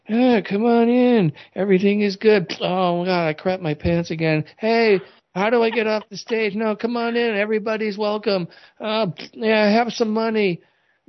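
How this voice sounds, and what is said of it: Deliberately bad imitation of another person. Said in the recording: “worst Joe Biden impression you probably ever heard ... the worst Joe Biden impression ever”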